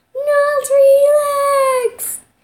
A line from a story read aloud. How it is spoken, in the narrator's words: Poppleton cried